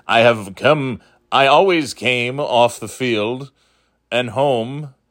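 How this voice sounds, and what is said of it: Imitates another person's voice. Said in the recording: “this is my Tom Brady imitation.”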